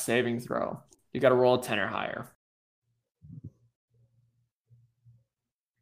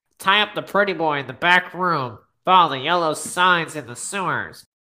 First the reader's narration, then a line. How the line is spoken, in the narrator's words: The other one, in a thin nasally voice, says